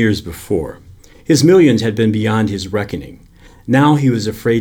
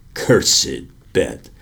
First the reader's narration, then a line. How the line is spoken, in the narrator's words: muttered the old man, clutching his head in despair